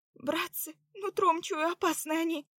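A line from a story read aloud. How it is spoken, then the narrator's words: Trembling voice. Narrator (Russian): сказала дрожащим голосом Заряна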